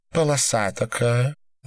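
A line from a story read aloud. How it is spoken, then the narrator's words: Sighing. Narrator (Russian): вздохнул Рутман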